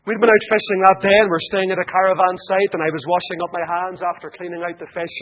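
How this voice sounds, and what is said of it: Irish accent. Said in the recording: “he heard my accent ... I heard your accent, and I thought you were a priest ... Irish Myths and Legends ... it's all about your country”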